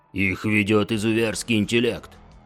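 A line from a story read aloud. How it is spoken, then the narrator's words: Growl. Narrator (Russian): прорычал Парток, легионер слева от Рана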